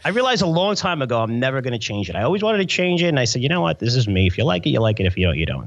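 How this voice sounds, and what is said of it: Strong New York accent. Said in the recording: “this really great, weird New York accent that just won't quit”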